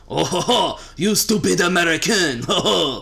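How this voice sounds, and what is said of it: Raspy put-on French accent. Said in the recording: “French man accent ... when you sound like some guy, a French guy who's been smoking Pall Malls his whole life”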